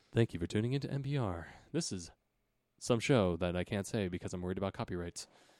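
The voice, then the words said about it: Public radio announcer voice. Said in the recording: “I love your NPR voice.”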